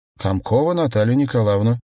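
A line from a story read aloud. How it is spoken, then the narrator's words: Loud. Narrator (Russian): громко произнесла женщина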